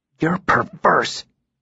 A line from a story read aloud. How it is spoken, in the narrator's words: spat, his voice almost rising to unacceptable levels